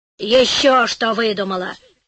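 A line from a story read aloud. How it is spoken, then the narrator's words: Old woman grumbling. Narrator (Russian): проворчала старуха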